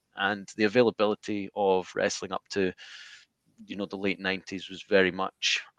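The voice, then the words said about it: Scottish accent. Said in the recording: “my accent ... I'm not from the US, I'm from Scotland”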